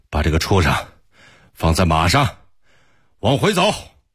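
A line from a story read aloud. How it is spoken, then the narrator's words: Breathless. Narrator (Chinese): 托雷在马上喘着粗气说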